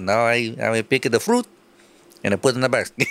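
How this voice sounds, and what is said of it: Put-on Italian-sounding accent. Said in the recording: “What am I, Italian? What kind of accent is that?”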